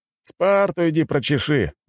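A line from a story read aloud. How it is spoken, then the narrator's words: Group laughing loudly. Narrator (Russian): расхохотались остальные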